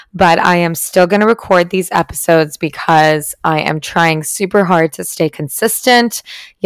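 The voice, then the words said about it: Raspy, strained voice. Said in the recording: “my voice is sounding a little bit raspy today ... Yesterday, I had zero voice at all”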